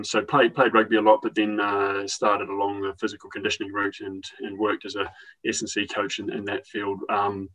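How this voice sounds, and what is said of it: New Zealand accent. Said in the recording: “it's a New Zealand accent that you're listening to”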